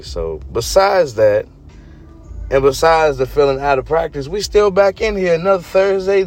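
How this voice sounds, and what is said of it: Hoarse, fading voice. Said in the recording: “excuse my voice ... It may be the cold air. It may be the allergies in the air ... I've been losing my voice”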